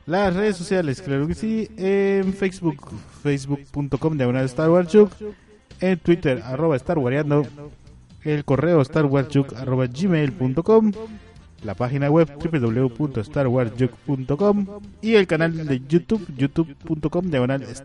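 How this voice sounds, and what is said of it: Radio announcer voice. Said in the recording (Spanish): “Cada vez lo haces con una voz mucho más locutoriana. Tremenda voz de locutor, tremenda voz de locutor.”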